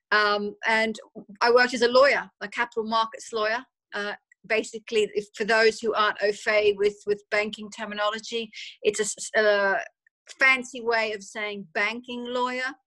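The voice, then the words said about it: Australian accent with English tinge. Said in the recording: “I grew up in Australia, if you can't pick the accent ... So the Australian accent probably sounds a little English more so than Australian at the moment.”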